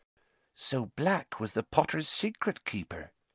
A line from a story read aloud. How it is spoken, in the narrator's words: whispered Madame Rosmerta